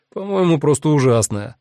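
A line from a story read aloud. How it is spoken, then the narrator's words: Sudden laughing remark. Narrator (Russian): вдруг рассмеялся сосед и добавил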